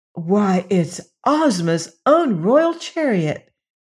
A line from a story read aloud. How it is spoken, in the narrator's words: exclaimed Dorothy